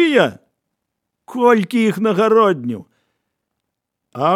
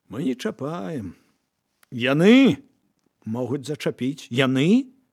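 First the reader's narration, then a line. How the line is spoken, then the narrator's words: Smiling. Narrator (Belarusian): усміхнуўся Марка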